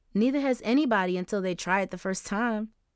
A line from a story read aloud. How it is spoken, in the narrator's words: Justice said with a laugh